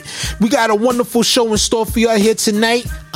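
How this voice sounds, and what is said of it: Excited, high-energy delivery. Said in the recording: “I'm excited. You can hear the excitement in my voice.”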